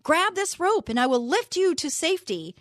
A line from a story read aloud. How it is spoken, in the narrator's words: the pilot shouted down